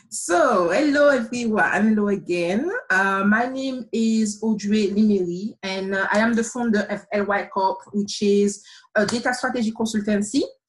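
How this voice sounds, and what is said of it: Slight French Caribbean accent. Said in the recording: “you may have noticed from my voice that I have a slight accent ... I'm French, and more specifically, I am from the Caribbean ... Martinique”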